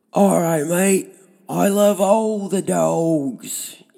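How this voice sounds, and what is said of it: Bad fake Australian accent. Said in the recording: “we're doing horrible, horrible Australian accents ... in the worst Australian accent I can do. And I can't even do a very good one, even if I tried.”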